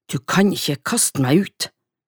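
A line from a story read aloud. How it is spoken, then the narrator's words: Angry reply. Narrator (Norwegian): svarte Hildur sint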